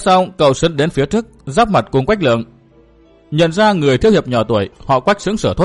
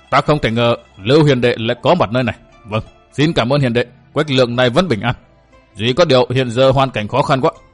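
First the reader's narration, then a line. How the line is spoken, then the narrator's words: Astonished stammer. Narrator (Vietnamese): Vẫn còn kinh ngạc, Quách Lượng lắp bắp đôi môi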